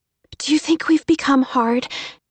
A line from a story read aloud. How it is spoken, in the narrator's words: Emmy asked anxiously